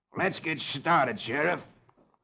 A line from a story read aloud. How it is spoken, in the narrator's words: Sloat snarls